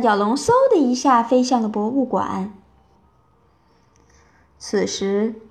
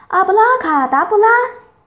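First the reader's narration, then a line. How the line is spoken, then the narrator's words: Shouting a spell. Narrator (Chinese): 温妮……大喊一声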